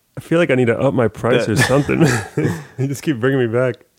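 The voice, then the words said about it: Nasal, congested voice. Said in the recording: “I hope my voice isn't nasally this time... I'm a little sick.”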